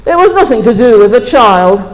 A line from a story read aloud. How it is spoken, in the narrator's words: said Mr